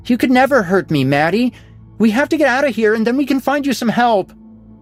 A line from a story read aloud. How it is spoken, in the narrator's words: Tony yelped, feeling his own tears welling up and then spilling down his cheeks